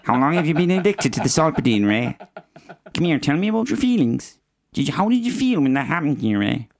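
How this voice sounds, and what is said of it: Imitates another person's voice. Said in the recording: “You're not meant to do who when I'm doing an impersonation.”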